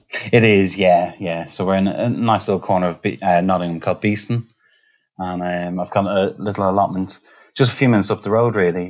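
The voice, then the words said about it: Slight Irish Dublin accent. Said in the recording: “there's a slight Irish accent in there as well ... There's a slight accent, yeah ... I'm Dublin raised, born and raised”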